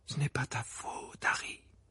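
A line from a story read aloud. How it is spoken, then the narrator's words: Murmured. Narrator (French): murmura Madame Weasley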